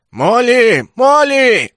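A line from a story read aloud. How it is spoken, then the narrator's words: Crowd shouting, many voices. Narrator (Russian): на разные голоса кричала отребье из зала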